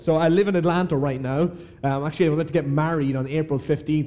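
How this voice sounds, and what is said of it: Irish accent. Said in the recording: “from Ireland ... You can already tell that my accent is different”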